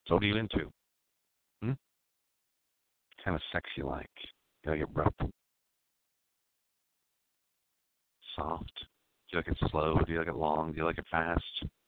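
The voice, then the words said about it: Put-on sexy seductive voice. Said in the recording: “sexy aroused right now by my voice? My sexy voice.”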